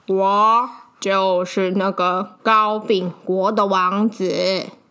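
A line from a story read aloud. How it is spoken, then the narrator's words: Sighing. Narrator (Chinese): 他叹一口气说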